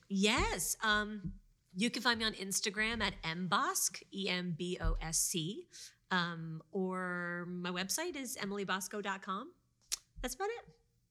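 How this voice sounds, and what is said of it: Speaks in a put-on French accent. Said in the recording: “I kept the French accent the whole time”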